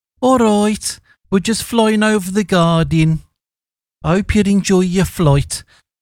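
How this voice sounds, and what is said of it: Deliberately bad Birmingham accent. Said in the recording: “a Brummie ... A terrible Birmingham accent from me, from the Midlands.”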